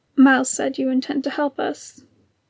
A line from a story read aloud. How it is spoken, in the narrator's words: Jango murmured